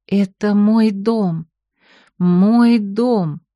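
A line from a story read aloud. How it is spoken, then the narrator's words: Slow, savoring words. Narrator (Russian): повторила она медленно, смакуя слова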